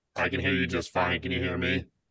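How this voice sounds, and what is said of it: Robotic-sounding voice. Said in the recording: “Is my connection bad? You sound like a robot.”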